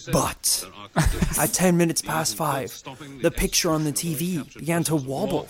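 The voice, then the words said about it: Put-on British news presenter voice. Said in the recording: “I keep doing a British accent for this bit. I have to go into omnipotent presenter mode.”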